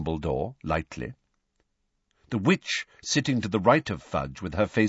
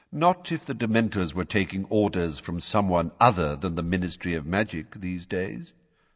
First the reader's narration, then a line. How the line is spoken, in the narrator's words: said Dumbledore calmly